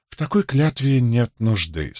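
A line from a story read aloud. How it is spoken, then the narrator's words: Calm. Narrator (Russian): спокойно сказал Мэтью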